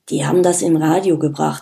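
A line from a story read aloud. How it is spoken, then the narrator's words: Murmured to someone. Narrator (German): murmelte Paul zu Erkan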